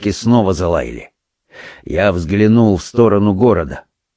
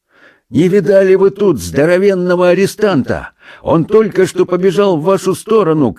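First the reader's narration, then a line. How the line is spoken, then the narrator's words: Shouted while moving. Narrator (Russian): крикнул офицер мне на ходу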